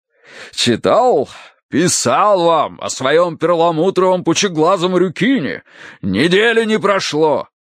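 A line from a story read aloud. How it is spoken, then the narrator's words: Deep bass voice. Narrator (Russian): пробасил полковник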